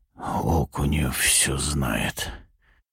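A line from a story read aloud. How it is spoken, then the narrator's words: Hoarse voice. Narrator (Russian): хрипло произношу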